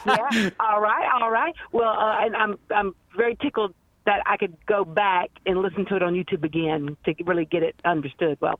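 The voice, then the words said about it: Louisiana accent. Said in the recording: “I'm also originally from Louisiana ... I knew I liked something about your accent.”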